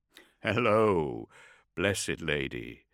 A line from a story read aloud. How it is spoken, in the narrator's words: the godson chuckled